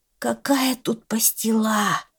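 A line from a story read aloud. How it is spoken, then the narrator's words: Weak mumble. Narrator (Russian): слабо пробормотал козел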